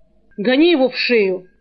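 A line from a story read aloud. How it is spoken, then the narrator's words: Barking shout. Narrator (Russian): рявкнул Сурок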